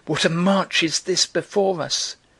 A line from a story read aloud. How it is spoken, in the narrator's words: they cried